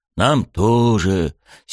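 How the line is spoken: Two voices exhaling together. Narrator (Russian): синхронно выдохнули мы с Рёдзи

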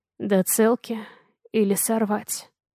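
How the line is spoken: Hoarse question. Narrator (Russian): Хрипло спрашивает

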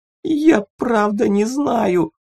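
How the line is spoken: Whimpering. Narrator (Russian): захныкал толстяк

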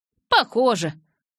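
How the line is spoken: Snort. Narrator (Russian): Сет фыркнул

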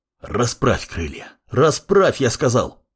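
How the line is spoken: Commanding growl. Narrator (Russian): рыкнул маг

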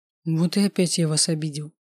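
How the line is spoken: Sad. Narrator (Russian): грустно проговорил он

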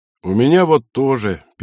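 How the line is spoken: Sad addition. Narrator (Russian): печально добавил

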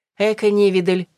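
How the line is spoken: Snorting. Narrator (Russian): фыркнула Мира

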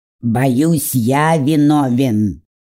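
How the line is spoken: Grumbling. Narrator (Russian): проворчал ворон

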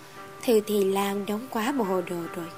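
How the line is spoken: Soft laugh. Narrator (Vietnamese): Ta khẽ cười nói

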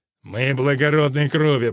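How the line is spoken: Through gritted teeth. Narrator (Russian): процедил рыцарь

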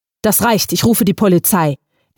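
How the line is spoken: Firm and angry. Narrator (German): erklärte René entschieden und wütend

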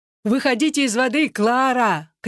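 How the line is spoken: Distant shouting. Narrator (Russian): кричал Чарли с берега

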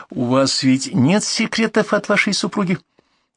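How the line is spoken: Uncertain. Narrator (Russian): Архипов неуверенно произнес

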